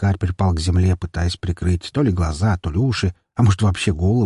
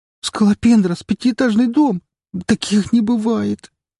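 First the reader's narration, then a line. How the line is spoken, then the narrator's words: Whimpering like little girl. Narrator (Russian): Она захныкала, как маленькая девочка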